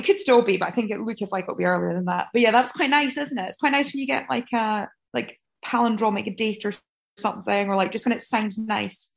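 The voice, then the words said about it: Aberdeen Scottish accent. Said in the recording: “Aberdeen... That's my favourite accent.”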